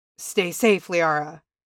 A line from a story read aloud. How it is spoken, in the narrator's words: he rasped